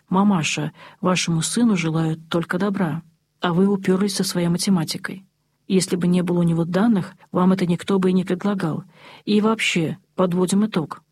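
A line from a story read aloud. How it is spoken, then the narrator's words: Even, very firm. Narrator (Russian): ровным голосом, но очень твердо сказал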